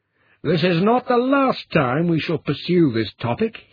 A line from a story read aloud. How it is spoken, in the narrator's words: yelled after her